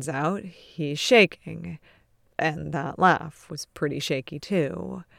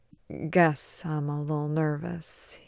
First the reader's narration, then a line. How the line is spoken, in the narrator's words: murmurs with a grimacing smile